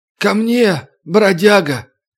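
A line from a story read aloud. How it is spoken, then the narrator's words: Muffled voice. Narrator (Russian): глухо сказал темнокожий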